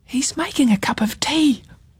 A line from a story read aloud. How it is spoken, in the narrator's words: whispered Ruby